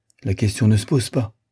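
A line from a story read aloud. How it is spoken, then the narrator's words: Young woman, determined. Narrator (French): dit la jeune fille d'un ton décidé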